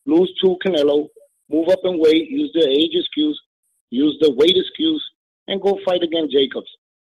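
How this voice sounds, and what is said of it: Spanish Dominican accent. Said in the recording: “you got a Spanish accent. I knew you was Dominican.”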